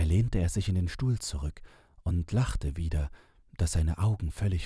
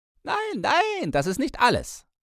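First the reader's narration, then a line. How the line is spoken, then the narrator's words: Calling out. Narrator (German): rief er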